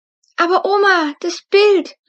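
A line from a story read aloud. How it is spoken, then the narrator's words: Calling out. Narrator (German): rief Luna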